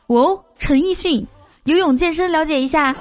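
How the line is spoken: Shouting. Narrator (Chinese): 其中一个男子高喊说

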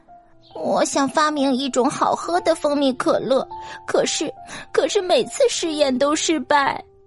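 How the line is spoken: Crying. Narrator (Chinese): 贝贝一边擦眼睛一边哭着说

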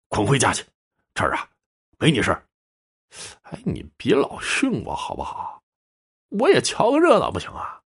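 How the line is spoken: Mumbling. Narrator (Chinese): 赵老二嘟嘟囔囔

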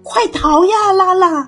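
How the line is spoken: Shout. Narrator (Chinese): 阿金大叫

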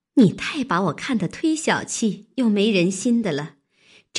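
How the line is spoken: Laughing. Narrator (Chinese): 袭人笑道

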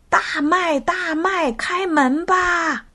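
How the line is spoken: Calling out. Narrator (Chinese): 他喊着

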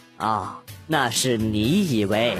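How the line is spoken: Fortune-teller, calm and detached. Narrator (Chinese): 算命先生淡淡的说道

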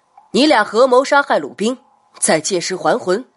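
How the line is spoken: Stern question. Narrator (Chinese): 张宣华厉声问道

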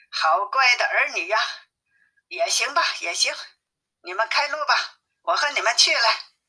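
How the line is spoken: Laughing. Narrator (Chinese): 悟空笑着说

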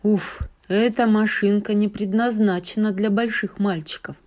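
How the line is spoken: Muttering. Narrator (Russian): пробормотал он

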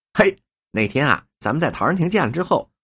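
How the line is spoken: Smiling. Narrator (Chinese): 三秃子仍是笑眯眯的脸向伯庸说

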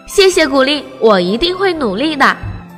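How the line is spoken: Excited, loud. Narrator (Chinese): 叶儿鼠阿吉激动地大声说

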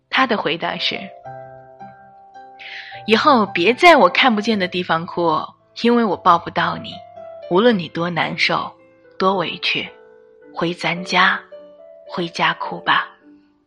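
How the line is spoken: Sighing. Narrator (Chinese): 他老婆叹了一口气说

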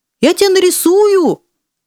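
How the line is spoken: Grateful shouting from afar. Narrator (Russian): кричал с лестничной площадки благодарный художник

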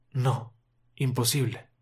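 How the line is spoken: Sigh. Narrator (Spanish): suspira

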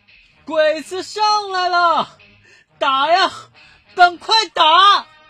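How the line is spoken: Shouting at full voice. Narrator (Chinese): 海娃放开嗓子喊起来

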